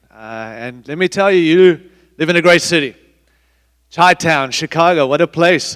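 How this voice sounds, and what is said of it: Mixed African and Australian accent. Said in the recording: “I'm sorry I have an accent. ... although I don't sound like you. I'm a mix, born in Africa, raised in Australia”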